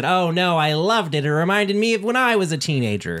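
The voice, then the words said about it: David Lynch impression. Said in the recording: “That was my David Lynch impression.”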